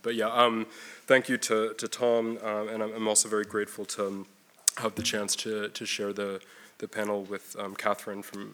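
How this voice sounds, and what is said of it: Strained, fading voice. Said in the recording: “losing my voice today with a cough”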